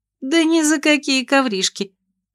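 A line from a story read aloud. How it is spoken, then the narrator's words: Cheerful snort, near tears. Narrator (Russian): весело фыркнула княжна, хотя ей плакать хотелось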